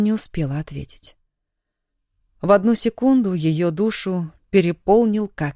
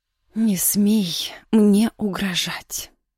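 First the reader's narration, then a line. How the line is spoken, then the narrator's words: Quiet, voice sounding strange. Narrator (Russian): тихо произнесла Яна и не узнала собственного голоса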